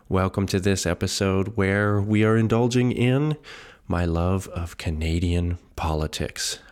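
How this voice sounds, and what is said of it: Voice sounding a little off. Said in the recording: “my voice sounds a little off in this episode ... If you notice some coughing”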